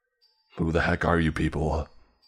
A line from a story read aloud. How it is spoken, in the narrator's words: he growled